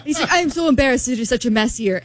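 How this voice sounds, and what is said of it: Put-on Argentinian accent. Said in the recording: “Argentinian accent. ... I'll stop doing my accent.”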